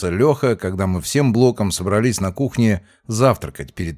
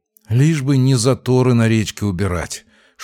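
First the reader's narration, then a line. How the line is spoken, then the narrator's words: Loud exhale. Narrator (Russian): шумно выдохнул Артем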